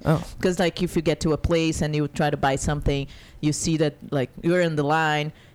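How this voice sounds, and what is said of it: Non-American foreign accent. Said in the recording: “I'm not from America. ... If you can... figure by my accent. ... I thought it was because of my accent. ... my English was still stressed.”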